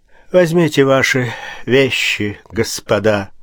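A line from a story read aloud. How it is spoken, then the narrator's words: Dejected voice, judge. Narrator (Russian): сказал судья упавшим голосом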